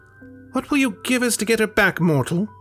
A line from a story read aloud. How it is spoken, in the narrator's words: A reedy voice called out